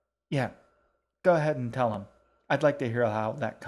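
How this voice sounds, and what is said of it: Usual voice. Nothing is said of it.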